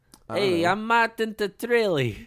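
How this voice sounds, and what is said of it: Poor attempt at Italian accent. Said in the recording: “That was not an Italian accent. ... Not good at all.”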